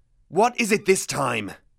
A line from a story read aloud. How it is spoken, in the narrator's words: He snarled